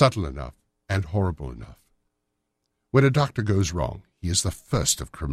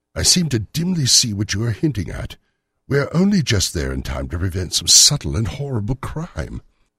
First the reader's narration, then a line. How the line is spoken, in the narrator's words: I cried